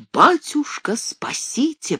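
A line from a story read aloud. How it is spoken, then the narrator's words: Breathless whisper. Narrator (Russian): прошептал, с трудом переводя дыхание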